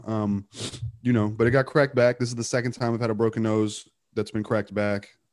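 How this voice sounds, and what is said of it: Nasal, congested voice. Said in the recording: “Crushed my septum, so it's hard to breathe. As you can tell, like my voice is real, like nasally right now.”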